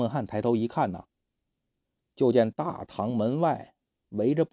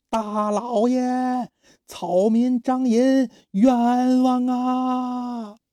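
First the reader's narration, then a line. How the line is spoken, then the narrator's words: Shout from outside. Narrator (Chinese): 外边有人喊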